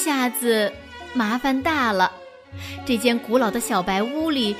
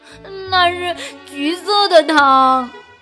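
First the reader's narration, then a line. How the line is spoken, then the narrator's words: Loud wailing sobs. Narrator (Chinese): 鸭子嚎啕大哭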